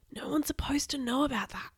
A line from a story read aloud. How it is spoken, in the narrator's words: I whispered